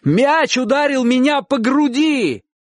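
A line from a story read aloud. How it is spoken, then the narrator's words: Shout. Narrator (Russian): крикнул Чик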